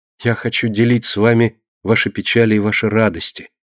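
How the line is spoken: Plain. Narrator (Russian): ответила Консуэла

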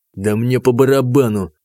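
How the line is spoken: Through gritted teeth. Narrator (Russian): процедил танк

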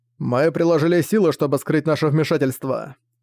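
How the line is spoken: Plain. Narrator (Russian): сказал ангел

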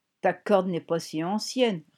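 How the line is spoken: Sneering. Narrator (French): ricana Fran

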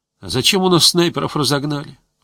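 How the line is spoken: Sighing. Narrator (Russian): вздохнул Гусев

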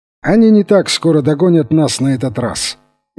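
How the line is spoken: Cheerful exclamation. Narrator (Russian): весело вскричал

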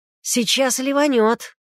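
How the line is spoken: Shout. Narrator (Russian): крикнул Егор

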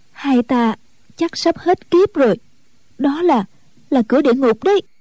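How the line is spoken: Trembling voice. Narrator (Vietnamese): Ân Tố Tố run run nói

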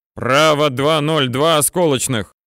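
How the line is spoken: Loud repetition. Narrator (Russian): громко повторил Алексеевич

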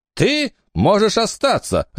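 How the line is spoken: Barked, nurse. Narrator (Russian): рявкнула медсестра

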